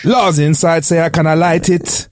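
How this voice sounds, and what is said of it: Exaggerated put-on Jamaican accent. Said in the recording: “Why are they using a Jamaican accent? ... they butchered it as well ... the accent that I've just recently butchered”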